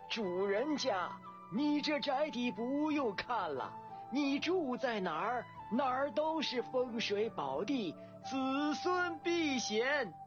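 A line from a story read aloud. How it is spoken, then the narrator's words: Geomancer laughing. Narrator (Chinese): 风水先生笑道说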